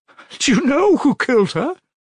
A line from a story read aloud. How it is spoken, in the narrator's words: She asked, chilled with horror